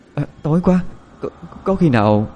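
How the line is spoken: Trembling voice. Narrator (Vietnamese): Quỳnh Hương nói với giọng run run

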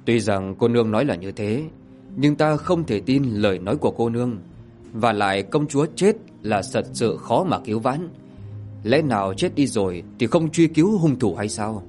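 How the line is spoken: Pained sighing old man. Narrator (Vietnamese): Hoàng bào lão nhân thở dài, đau đớn mà nói

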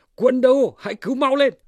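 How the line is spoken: Crying out. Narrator (Vietnamese): Đặng Phi kêu lên

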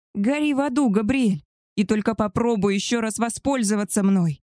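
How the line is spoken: Menacing female growl. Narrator (Russian): Грозно прорычала хозяйка

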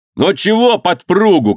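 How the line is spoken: Shouting. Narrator (Russian): крикнул на него Афонька

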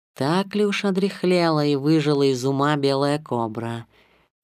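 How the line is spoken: Soft. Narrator (Russian): мягко спросила Багира

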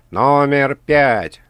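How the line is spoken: Loud announcement. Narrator (Russian): громко произнес ведущий

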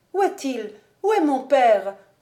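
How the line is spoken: Exclaimed. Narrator (French): s'écria-t-elle

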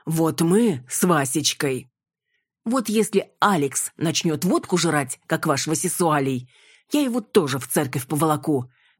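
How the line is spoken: Barking. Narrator (Russian): рявкнула я

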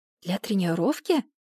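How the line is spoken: Whisper. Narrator (Russian): прошептала я Бекке

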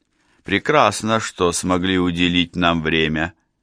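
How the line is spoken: Mocking. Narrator (Russian): насмешливо сказал

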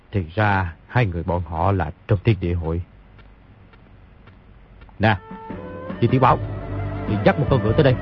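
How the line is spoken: Muttering. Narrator (Vietnamese): bèn lẩm bẩm

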